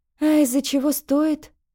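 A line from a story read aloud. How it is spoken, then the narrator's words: Sighed. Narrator (Russian): вздохнула Тесс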